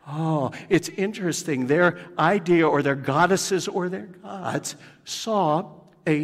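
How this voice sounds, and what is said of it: Usual voice. Nothing is said of it.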